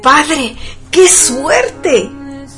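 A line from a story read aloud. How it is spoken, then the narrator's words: Boy exclaiming. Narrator (Spanish): exclamó esta vez el muchacho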